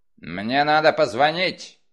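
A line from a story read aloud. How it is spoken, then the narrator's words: Barked. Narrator (Russian): рявкнул Крэмер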